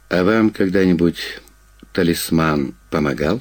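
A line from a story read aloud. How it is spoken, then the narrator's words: Plain. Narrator (Russian): спросил он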